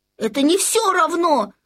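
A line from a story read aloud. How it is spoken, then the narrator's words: Shout. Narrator (Russian): крикнул Людвиг XIV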